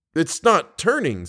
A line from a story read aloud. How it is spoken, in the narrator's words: said Raoul impatiently